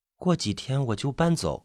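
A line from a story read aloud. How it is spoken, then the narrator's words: Quiet, subdued. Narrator (Chinese): 吴木低下头，小声的说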